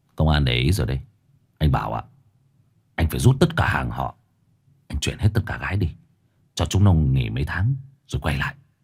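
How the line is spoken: Sighing, cold but kind. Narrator (Vietnamese): thở dài rồi nói bằng một giọng lạnh lùng nhưng tử tế

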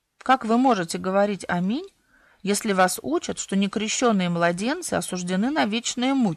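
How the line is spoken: Calm objection. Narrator (Russian): спокойно возразил Элейф

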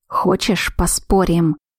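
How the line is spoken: Rough growl. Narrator (Russian): грубо прорычал он

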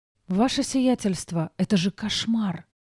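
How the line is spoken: Whisper. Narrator (Russian): прошептала Диана

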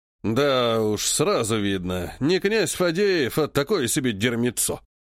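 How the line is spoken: Grumbling. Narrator (Russian): проворчал Греков

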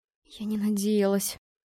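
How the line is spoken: Trembling whisper. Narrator (Russian): шептала я дрожащим голосом

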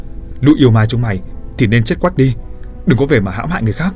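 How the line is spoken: Shouting. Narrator (Vietnamese): hắn hét lên

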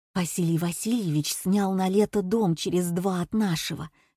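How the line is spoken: Whisper. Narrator (Russian): шепнула Катя Татьяна Михайловна

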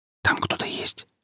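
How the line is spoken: Whisper. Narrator (Russian): прошептал он Иветте

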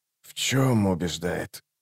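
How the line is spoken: Ominous question. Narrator (Russian): зловещим тоном спросил убийца

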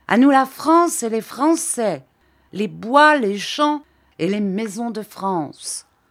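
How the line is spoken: Drunken brutish vociferating. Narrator (French): Les autres, tout à fait sous, secoués soudain par un enthousiasme militaire, un enthousiasme de brute, en vociférant

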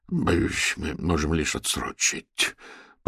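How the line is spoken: Embarrassed old man mumbling. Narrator (Russian): пробормотал смущенный старик Васильчиков

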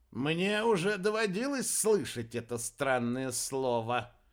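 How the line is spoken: Creaky voice. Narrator (Russian): проскрипел Аэрба

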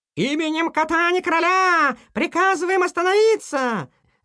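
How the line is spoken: Group shouting. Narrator (Russian): закричали они

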